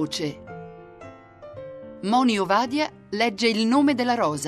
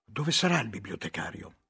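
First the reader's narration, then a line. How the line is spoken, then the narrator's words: Whispered. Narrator (Italian): sussurrai a Guglielmo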